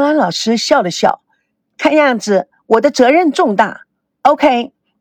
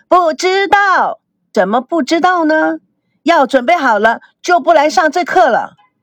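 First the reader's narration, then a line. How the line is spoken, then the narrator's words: Crowd shouting loudly. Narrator (Chinese): 众学员都大声的喊着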